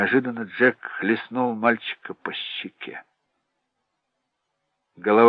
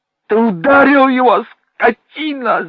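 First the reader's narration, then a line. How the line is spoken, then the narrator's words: Shouting. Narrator (Russian): закричала Венди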